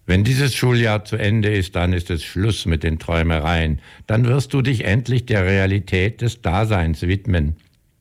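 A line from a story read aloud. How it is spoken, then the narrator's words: Shouting. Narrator (German): er rief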